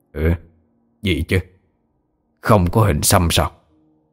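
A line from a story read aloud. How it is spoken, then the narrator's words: Puzzled muttering. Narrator (Vietnamese): Lão Chẩn Mù nhíu mày lẩm bẩm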